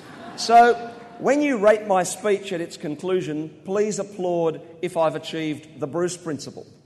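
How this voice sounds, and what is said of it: Australian accent. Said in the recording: “my weird Aussie accent.”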